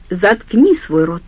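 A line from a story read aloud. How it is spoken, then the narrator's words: Sharp. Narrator (Russian): резко сказал отец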